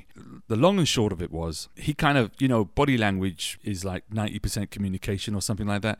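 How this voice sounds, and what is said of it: British English accent. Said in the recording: “I'm a black guy with a British accent. I was born in England”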